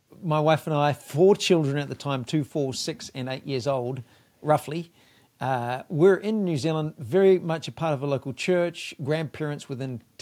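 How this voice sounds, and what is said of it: New Zealand accent. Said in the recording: “not from Kentucky like I am. He's got a little bit different accent about him. And just slightly. He's from the South, but not South U.S. ... come from New Zealand”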